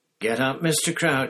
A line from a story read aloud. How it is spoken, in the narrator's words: said Harry loudly and clearly